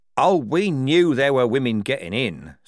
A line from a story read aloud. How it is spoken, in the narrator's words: said Strappy